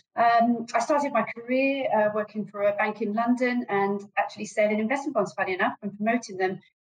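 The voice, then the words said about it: British accent. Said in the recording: “you can probably tell from my accent, I'm from the UK”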